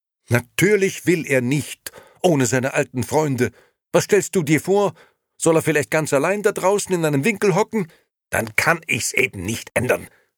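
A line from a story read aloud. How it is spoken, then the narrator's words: Shouted. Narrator (German): schrie Nino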